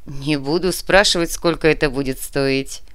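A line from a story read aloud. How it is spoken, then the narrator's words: Laughing man. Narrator (Russian): рассмеялся мужчина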